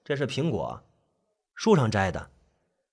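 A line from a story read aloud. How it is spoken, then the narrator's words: Flat, plain tone. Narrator (Chinese): 那语气平平淡淡，就像是在说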